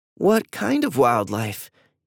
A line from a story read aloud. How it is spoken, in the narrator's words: Eva asked nervously